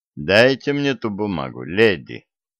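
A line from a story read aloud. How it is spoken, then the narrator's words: Calm but insistent. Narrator (Russian): спокойно, но упрямо настаивал Стив Грейс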